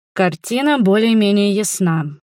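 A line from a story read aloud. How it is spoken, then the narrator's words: Gloomy. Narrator (Russian): мрачно сказал Кристоп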